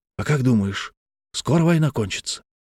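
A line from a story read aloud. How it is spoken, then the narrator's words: Whispered question. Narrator (Russian): спросил Степан Иванович почему-то шепотом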